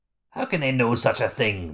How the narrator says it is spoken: the Skurg spat back

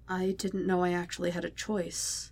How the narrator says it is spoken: Wade whispered, not having meant to have said it out loud

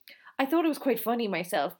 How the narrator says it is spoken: Moira said, with a little laugh

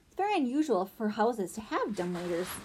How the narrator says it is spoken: Althea said, chuckling

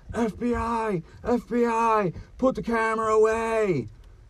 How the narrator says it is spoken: some offended long hair screaming

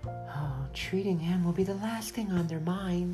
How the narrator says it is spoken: said in a quiet voice

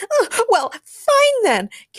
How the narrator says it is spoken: Kara Danvers shouted in a rage

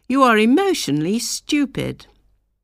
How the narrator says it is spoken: he would exclaim

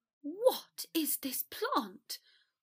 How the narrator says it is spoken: Draco gasped suspiciously

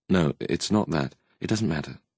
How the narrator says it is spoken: said icily, her tone cutting the air

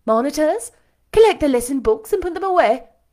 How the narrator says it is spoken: she cried out

